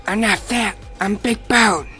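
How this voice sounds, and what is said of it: Cartoon character impression. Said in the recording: “It's Cartman from South Park. ... that was actually really good.”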